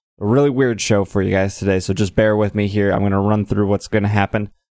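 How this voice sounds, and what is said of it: Quiet, low-energy late-night voice. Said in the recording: “my voice is a bit quieter, and I'm probably not sounding as energetic as I usually sound”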